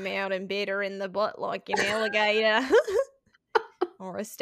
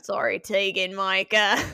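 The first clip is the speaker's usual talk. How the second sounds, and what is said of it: Put-on Australian accent. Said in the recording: “say it in an Australian accent”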